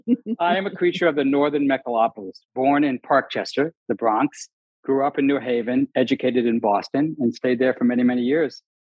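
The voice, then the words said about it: Mixed Northeastern US accent. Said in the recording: “You can tell from the way I talk ... I have this smear of an accent that goes up and down the northern eastern coast of the United States”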